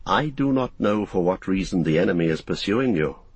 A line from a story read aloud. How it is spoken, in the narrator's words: answered Gildor